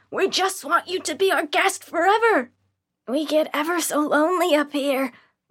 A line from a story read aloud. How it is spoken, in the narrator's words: The man from the ticket booth stood in my path next, yelling